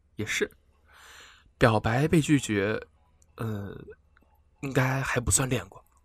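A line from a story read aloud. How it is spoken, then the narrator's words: Muttering to himself. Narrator (Chinese): 他喃喃自语道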